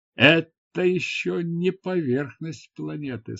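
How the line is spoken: Plain. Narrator (Russian): сказал Нуран

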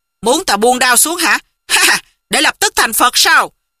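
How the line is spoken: Laughing roar. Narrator (Vietnamese): Đoàn Thiên Đức hô hô cười rộ quát

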